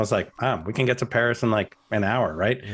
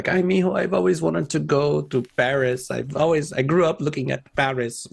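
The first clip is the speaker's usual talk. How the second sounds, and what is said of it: Imitated Puerto Rican accent. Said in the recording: “in her Puerto Rican accent”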